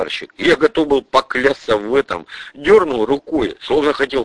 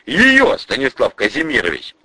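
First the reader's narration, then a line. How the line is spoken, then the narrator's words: Exclaiming. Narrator (Russian): воскликнул Новиков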